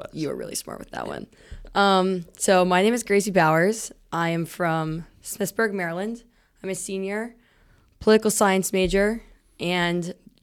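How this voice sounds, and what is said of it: Very loud speaking voice. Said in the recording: “you're really loud... normally it for you is loud... back up from the mic a little bit”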